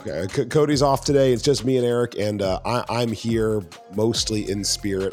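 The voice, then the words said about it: Sick, rough voice. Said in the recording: “if you can't tell by my voice ... I apologize in advance for whatever sounds are coming out of my mouth that are not entirely words ... I look and feel about as good as I sound”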